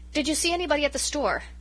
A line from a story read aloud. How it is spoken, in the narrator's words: asked desperately, in the faint hope of directing conversation into more agreeable channels